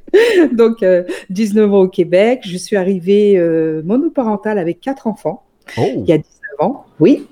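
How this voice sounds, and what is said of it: French-from-France accent. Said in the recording (French): “si on entend un petit peu, elle a un accent. Donc, elle vient de France à l'origine”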